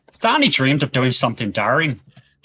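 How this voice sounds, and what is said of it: Demonstrated Northern Irish accent. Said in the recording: “In Northern Ireland accent, it comes across like”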